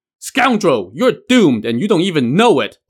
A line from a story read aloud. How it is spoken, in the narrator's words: Black Tiger roared